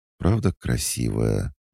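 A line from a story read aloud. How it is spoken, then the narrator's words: Muffled near-whisper. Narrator (Russian): глухо, почти шепотом уточнила Аля, меняя настроение вместе с ним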